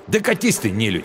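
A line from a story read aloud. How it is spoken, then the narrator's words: Angry snap. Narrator (Russian): Зло огрызнулся он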